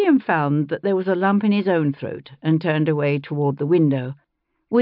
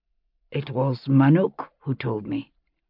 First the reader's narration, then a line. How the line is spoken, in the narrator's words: Cinnamon said, his voice husky too